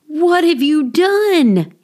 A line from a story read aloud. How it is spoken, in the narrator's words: cried